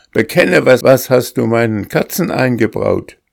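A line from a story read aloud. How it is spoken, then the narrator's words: Shouting. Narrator (German): schrie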